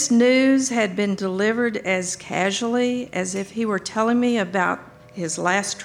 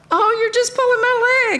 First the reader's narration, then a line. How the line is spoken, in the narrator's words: I said with a nervous giggle